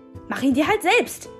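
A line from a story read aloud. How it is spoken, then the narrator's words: Shouting. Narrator (German): schrie sie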